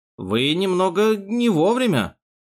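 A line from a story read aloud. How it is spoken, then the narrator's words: Mumbling. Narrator (Russian): промямлил фриц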